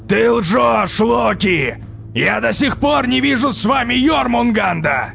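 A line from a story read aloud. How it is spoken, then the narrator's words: Shouting back. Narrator (Russian): прокричал в ответ Один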